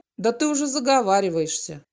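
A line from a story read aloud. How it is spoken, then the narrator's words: Skeptical snort. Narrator (Russian): Володя хмыкнул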